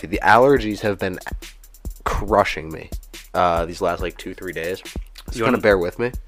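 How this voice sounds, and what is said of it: Stuffy, congested voice. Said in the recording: “if I sound a little stuffy.”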